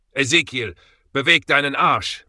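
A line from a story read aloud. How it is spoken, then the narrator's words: Yelling. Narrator (German): brüllte James Law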